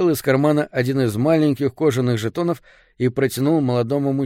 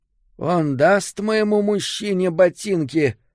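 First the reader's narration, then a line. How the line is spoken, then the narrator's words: Hoarse question. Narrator (Russian): спросила женщина своим хриплым голосом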